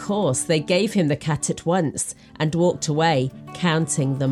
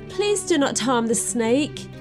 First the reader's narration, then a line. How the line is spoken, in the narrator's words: he pleaded